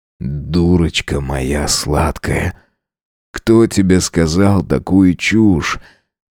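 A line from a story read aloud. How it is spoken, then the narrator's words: Hoarse, breathless. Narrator (Russian): хрипло выдыхаю я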